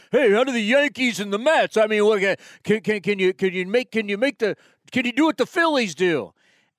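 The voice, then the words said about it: Deliberately bad New York accent. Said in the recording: “my bad New York impersonation”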